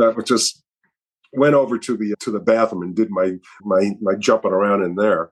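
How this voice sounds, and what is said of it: Usual voice. Nothing is said of it.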